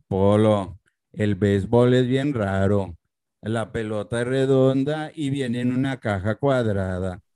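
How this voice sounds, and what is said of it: Deliberately bad impression of guest's father. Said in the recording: “does a great impression of your father ... this is him doing your father. It's a bad impression, but I'm doing my best.”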